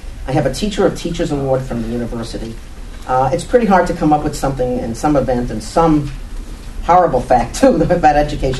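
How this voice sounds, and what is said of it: New York accent. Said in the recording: “inner city New York, if you haven't learned to that already about my accent”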